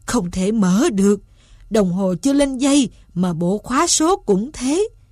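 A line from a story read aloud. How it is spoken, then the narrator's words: Moaning. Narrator (Vietnamese): Ông rên rỉ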